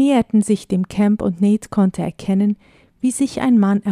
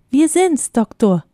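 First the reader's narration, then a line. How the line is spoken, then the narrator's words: Half-loud call. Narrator (German): rief Ben halblaut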